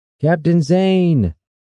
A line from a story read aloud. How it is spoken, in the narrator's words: shouted over the wind